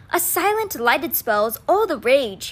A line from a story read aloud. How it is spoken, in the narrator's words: he cried out